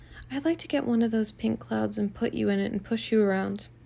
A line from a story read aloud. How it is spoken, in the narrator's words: whispered